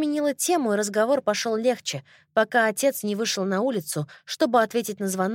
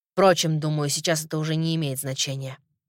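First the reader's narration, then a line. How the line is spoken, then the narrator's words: Grumbling. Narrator (Russian): проворчал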